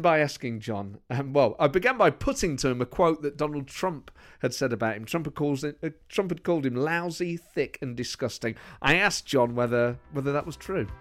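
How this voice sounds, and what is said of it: Slight East Midlands English accent. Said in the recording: “you've got a slight kind of Brummy accent ... The East Midlands. I'm from Nottingham. ... you've got some interesting vowels in there, because you've got a kind of northern sounding or Midlands-y.”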